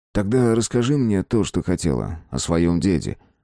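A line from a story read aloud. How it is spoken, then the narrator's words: Soft reply. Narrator (Russian): мягко ответил Марк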